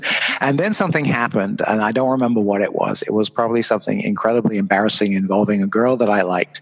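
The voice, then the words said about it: British accent. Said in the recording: “you can still hear my British accent”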